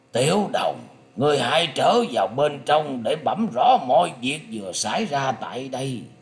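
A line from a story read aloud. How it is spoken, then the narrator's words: Hoarse middle-aged voice. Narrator (Vietnamese): Giọng nói của người đàn ông đứng tuổi ấy đã trở thành khàn khàn và nói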